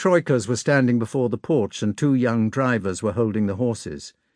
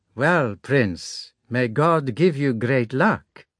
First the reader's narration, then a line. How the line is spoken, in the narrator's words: said Matryona in her gypsy accent